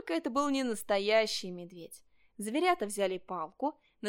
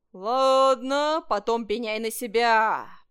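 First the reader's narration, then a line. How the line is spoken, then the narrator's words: Bear roaring after someone. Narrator (Russian): проревел ему вслед медведь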